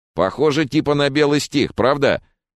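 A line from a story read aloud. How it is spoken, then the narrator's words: Contemptuous snort. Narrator (Russian): Генри презрительно хмыкнул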